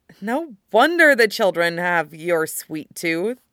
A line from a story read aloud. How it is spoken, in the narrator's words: she sighs